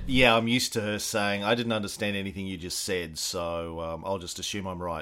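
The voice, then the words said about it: Australian accent. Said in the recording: “that explains definitely the accent ... the Australia thing”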